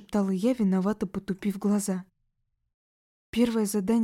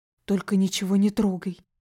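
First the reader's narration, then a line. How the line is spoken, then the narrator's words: Hissed warning. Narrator (Russian): прошипел парень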